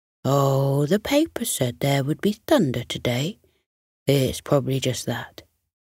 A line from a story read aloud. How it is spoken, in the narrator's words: the lion replied soothingly